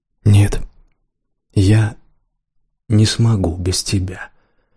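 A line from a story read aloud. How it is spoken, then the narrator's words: Almost silent whisper. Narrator (Russian): призналась почти беззвучным шепотом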